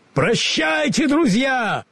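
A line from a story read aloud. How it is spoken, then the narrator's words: Lion's roar. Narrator (Russian): проревел лев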